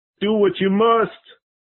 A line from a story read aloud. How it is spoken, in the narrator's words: Poor Arthur fell to his knees and, with his face in his hands, cried